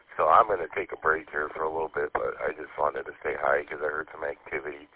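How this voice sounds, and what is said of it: Weak, hoarse voice. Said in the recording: “My voice is hardly even here again. I don't know what's up with this cold... then my voice is just blah”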